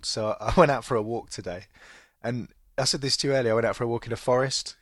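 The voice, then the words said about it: Congested voice with a cold. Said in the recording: “you can probably hear I've got a bit of a cold”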